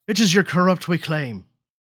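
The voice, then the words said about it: Bad put-on Irish accent. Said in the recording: “as for an Irish accent, he'd be like ... And it sounds so bad. So fucking bad.”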